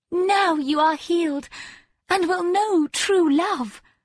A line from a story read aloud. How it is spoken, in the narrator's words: cried the maiden